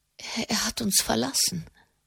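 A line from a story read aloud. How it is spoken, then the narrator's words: Stammer. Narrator (German): stammelte sie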